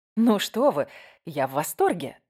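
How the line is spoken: Ardent exclamation. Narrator (Russian): с жаром воскликнула я

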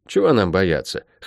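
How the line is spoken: Scoffing snort. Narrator (Russian): хмыкнул Лук

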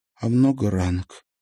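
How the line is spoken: Quiet question. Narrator (Russian): спросила Марьяна тихо

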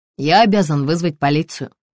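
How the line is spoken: Dry. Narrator (Russian): сухо произнес доктор

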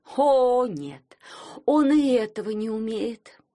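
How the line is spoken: Groaned. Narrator (Russian): простонала Склепова

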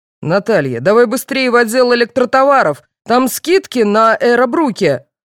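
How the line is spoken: Man yelling. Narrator (Russian): заорал мужчина

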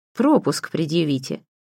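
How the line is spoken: Stranger's snort. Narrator (Russian): хмыкнул неизвестный

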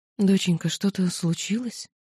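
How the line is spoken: Quiet mother. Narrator (Russian): тихо спросила мама

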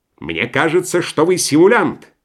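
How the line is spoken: Doctor shouting. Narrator (Russian): крикнул на Швейка другой доктор

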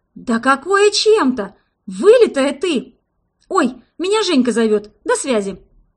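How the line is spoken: Exclaiming. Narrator (Russian): воскликнула

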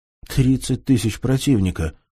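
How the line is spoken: Exclaiming. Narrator (Russian): воскликнул Нижегородец

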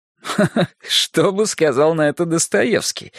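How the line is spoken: Relieved laugh. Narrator (Russian): рассмеялся Павел, сняв напряжение

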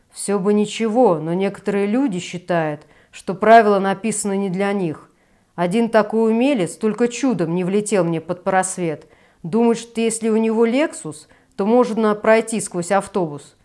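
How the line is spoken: Grumbled. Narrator (Russian): проворчал Гриша

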